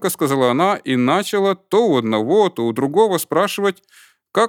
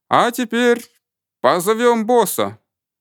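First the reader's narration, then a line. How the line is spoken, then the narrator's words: Crowd shout, growing louder. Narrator (Russian): Сначала спокойно, а потом все громче и громче закричал весь коллектив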